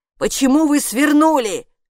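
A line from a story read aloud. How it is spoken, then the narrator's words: Shouting. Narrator (Russian): закричала привратница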